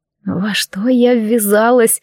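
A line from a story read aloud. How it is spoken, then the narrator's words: Resigned sigh. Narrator (Russian): обреченно вздохнула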